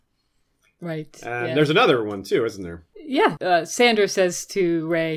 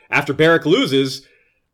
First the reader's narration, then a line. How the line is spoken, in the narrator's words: Arya screams